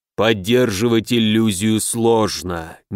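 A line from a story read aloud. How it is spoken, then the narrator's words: Low growl, tiger-headed being. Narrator (Russian): низко прорычал разумный с тигриной головой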